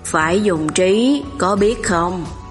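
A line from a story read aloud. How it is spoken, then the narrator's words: Sighing, sulky. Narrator (Vietnamese): Bàn Cát thở dài, phụng phịu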